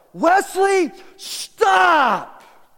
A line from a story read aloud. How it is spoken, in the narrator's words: Jeremy Vance yelled out